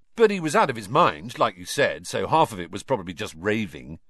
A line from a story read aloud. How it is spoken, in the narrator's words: said, in a falsely confident voice